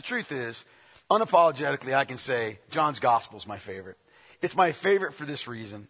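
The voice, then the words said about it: Rough, strained voice. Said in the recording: “apologize for my voice. I know it's hard to listen to me sometimes. It's probably harder now... I'll sound like the local football coach”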